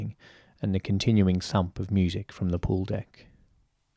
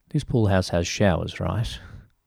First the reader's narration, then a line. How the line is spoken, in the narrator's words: Ryan chuckled as well